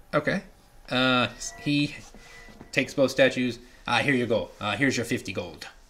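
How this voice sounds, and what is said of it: Put-on accent slipping into pirate voice. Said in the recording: “my accent keeps slipping ... It was good there for a while ... It was at the beginning. It wasn't bad, and it kind of keeps slipping into pirate now ... Glasgonian pirates”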